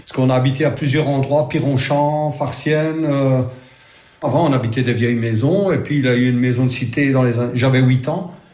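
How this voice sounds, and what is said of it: Italian-tinged Charleroi (Carolo) accent. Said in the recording (French): “Un accent typique... Carolo, peut-être... Mais d'Italien, Carolo.”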